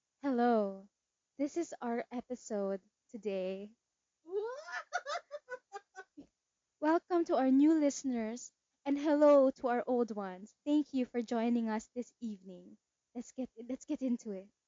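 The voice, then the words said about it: Polished podcast host voice. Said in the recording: “Ang podcast voice ... That was uncanny.”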